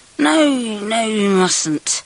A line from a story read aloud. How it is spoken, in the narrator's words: I slurred